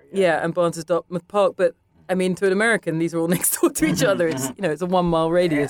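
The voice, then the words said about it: London accent slipping toward New York. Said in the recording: “New York has seeped in. Even listening to myself now, I can hear, even my accent is slipping”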